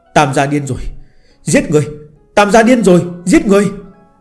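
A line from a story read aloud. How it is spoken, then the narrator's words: Frantic screaming. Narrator (Vietnamese): Tiếng gào thét của Tống Thư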